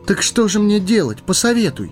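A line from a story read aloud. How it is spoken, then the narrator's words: Pleading. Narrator (Russian): взмолился Фродо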